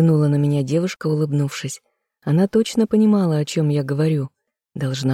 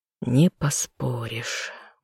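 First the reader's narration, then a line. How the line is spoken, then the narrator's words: Tired sigh. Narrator (Russian): устало вздохнул я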